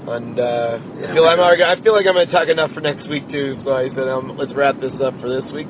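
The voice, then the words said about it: Voice with sore throat. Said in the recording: “I have a little sore throat. I'm getting sick”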